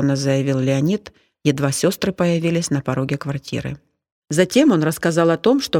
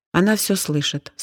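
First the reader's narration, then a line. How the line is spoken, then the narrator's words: Calm. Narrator (Russian): спокойно сказала Зина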